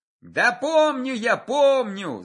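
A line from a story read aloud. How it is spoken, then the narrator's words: Yelled reply. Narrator (Russian): заорал атаман в ответ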